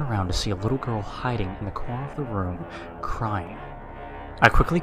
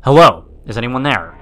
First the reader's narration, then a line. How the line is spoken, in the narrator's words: yelled out